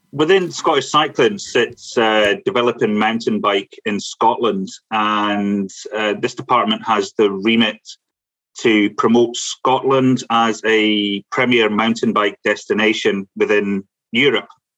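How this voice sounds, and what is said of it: Scottish accent. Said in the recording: “It's always great to hear a fellow Scot. ... I miss the accent, yeah. Especially your accent.”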